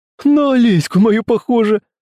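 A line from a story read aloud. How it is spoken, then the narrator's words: Laughing. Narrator (Russian): Засмеялся Артём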